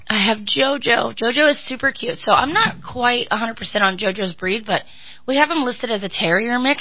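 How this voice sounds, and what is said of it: Slightly hoarse, strained voice. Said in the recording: “I'm kind of losing my voice a little bit today.”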